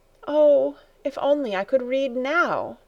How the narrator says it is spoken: with a sigh, exclaimed

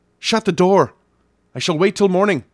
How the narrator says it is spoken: as the last chance I cried out

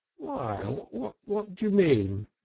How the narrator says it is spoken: asked the Toad nervously

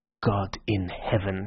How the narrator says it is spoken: he said quietly

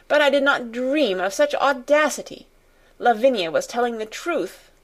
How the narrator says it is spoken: she exclaimed

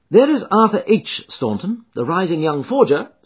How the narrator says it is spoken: said

